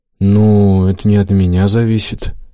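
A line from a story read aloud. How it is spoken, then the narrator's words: Drawling. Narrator (Russian): протянул тот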